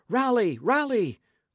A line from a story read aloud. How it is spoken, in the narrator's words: cried Dick